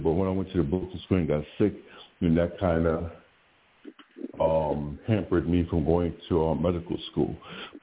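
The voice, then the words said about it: Slow speech. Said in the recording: “I'm sorry I'm talking so slow.”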